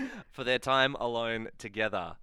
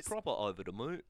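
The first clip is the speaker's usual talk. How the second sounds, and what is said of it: Weak attempt at British accent. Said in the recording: “I can't do a British accent. ... Did sound a bit like your regular voice. ... what region that voice that ... just did was most like”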